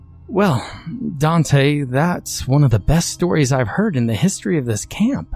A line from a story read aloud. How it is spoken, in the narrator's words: the counselor exclaimed, elated by the depths of her charge's depravity